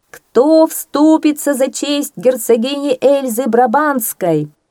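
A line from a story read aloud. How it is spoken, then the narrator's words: Loud heralds' proclamation. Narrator (Russian): громко возгласили герольды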